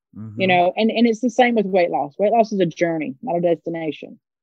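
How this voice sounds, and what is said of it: Southern American accent. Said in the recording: “I love your Southern accent”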